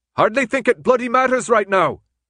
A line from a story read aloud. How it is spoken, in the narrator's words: Newt shouted back